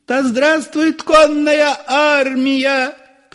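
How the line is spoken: Frenzied women shouting. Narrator (Russian): кричали исступленные женские голоса

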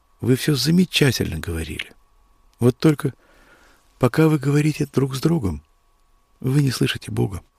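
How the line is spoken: Quiet. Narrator (Russian): тихо сказал

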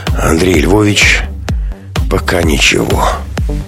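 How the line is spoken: Weary speech. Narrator (Russian): устало сказал

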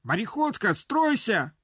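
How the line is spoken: Breathless cracking shout. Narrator (Russian): Срывающимся от быстрого бега голосом крикнул

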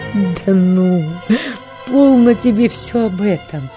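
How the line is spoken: Pleased laughing. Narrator (Russian): Катерине Львовне было приятно это выражение Сергеевой ревности, и она, рассмеявшись

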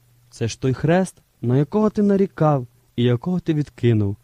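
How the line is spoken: Plain. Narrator (Ukrainian): відповів Ісус

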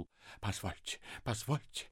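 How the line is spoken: Babbling. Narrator (Russian): лепетал Ипполит Матвеевич

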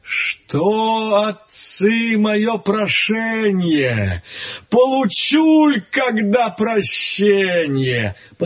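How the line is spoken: Sighing. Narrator (Russian): Чудо-юдо, рыба-кит, так вздохнувши, говорит

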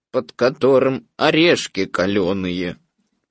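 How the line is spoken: Gloomy, dejected. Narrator (Russian): уныло продолжал Иа-Иа

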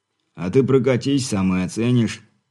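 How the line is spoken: Wry snort. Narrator (Russian): хмыкнув, подал голос Бурый

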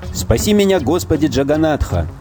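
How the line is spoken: Screamed. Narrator (Russian): закричал

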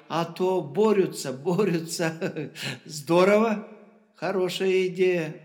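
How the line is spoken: Laughing. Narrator (Russian): рассмеялась Жабровец

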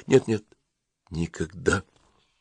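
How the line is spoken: Quiet, cold. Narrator (Russian): Самозабвение исчезло, холодно взглянула она на распаленного Конькова и тихо сказала

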